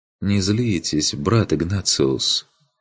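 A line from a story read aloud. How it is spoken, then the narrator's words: Quiet pleading. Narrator (Russian): попросил он тихо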